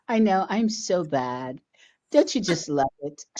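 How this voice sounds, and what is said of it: Sultry, seductive voice. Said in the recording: “I'm using my sexy voice today”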